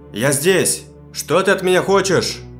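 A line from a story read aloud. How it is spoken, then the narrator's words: Shout. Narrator (Russian): закричал я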